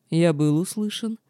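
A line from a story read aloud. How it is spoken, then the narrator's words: Slightly mocking smiling question. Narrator (Russian): чуть насмешливо улыбаясь, вопросил император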